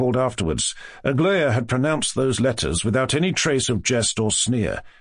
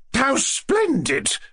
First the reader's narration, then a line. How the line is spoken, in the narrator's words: cried Madame Epanchin in genuine enthusiasm